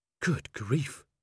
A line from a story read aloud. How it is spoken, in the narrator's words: breathed Angua